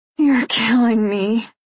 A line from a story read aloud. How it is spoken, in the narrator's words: I grind out through gritted teeth